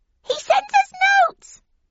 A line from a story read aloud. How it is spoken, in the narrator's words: squeaked the oldest of 3 mice